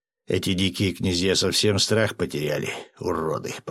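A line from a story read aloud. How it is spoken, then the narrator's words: Emperor grating through teeth. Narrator (Russian): проскрипел зубами император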